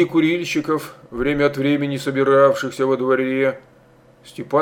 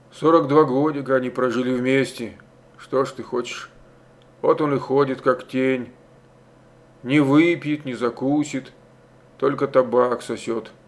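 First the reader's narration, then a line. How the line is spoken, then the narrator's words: Whispering from behind. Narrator (Russian): Кто-то за спиной шептал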